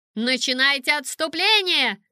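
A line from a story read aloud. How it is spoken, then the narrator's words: Shouting. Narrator (Russian): закричала она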